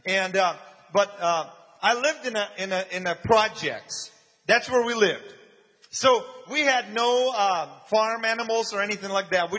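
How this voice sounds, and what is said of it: Ukrainian Eastern European accent. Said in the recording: “This happened in Ukraine, which is Eastern Europe, and that's where I grew up. You can probably tell by the accent.”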